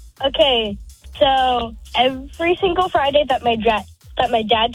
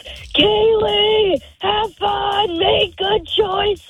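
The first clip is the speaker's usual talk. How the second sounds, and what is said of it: Loud shouted imitation of father. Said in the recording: “impression of your mom or dad? Let's hear it nice and loud. ... screams”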